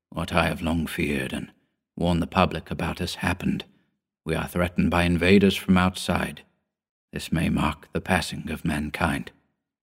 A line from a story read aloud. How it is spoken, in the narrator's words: The older man looked tired as he replied gently